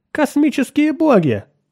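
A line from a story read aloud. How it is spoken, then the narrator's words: Stunned android exclaiming. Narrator (Russian): воскликнул ошеломленный андроид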